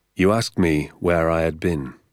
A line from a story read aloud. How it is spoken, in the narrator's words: he said